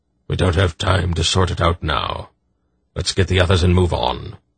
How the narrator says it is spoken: Belgareth grunted

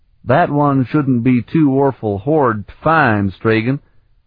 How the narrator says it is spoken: Kalidor drawled

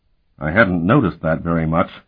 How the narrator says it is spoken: Keurig muttered

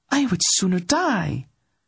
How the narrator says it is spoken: the princess blurted

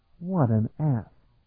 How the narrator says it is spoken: Talon muttered

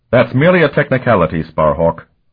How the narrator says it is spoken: Annius snapped

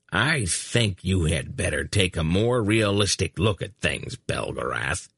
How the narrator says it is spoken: the hunchback growled at him

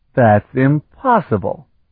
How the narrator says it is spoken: Sparhawk exclaimed

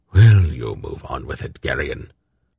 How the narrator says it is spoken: his grandfather muttered

